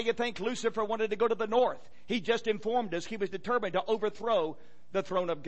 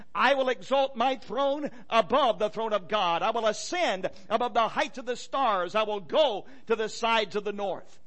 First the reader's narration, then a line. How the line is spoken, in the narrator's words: Lucifer became pridefully exalted, and five times he exclaimed